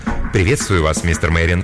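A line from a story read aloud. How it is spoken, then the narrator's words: Plain. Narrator (Russian): сказал главный официант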